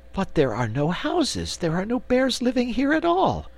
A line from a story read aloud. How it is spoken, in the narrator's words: exclaimed Cake